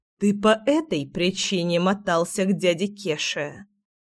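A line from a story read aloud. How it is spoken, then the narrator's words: Menacing demand. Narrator (Russian): грозно требовала я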